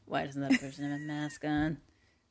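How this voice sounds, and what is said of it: Convincing impression of co-host. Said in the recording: “that was an incredible impression of me. I'm looking at myself and you. I didn't know which one was which.”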